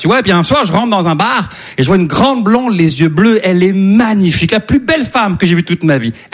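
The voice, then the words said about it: Slight Québécois French accent. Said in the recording (French): “ça se peut que vous entendiez un petit accent québécois”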